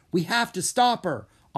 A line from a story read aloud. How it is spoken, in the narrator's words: Anna cried